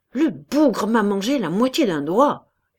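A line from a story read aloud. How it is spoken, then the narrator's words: Growling in pain. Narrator (French): gronda Cabas, dont la main saignait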